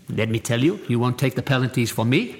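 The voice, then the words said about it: Bad put-on Italian accent. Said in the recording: “it's Italian and Irish. Yes, the accents are terrible. The accents are terrible ... I won't do any more Italian accent because that's terrible”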